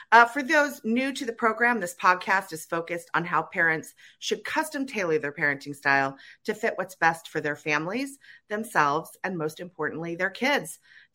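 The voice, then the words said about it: Raspy voice from a cold. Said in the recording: “I have a little cold today, so I apologize for my raspy voice.”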